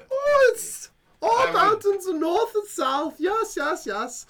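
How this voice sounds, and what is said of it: Put-on foreign character accent. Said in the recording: “I recognize it from your accent, of course ... It's barely noticeable, friend. Barely noticeable.”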